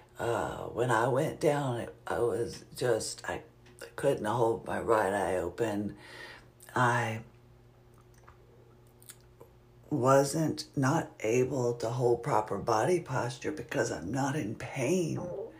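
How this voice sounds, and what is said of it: Weakening, fading voice. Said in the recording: “as you might be able to tell, my voice is going down a little bit the longer that I speak”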